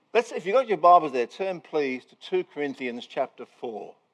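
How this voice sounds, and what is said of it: Strange non-local accent. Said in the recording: “you can work out my strange accent ... You can understand me? ... But you guys do talk funny”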